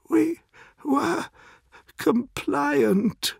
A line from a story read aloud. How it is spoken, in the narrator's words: gasps the old man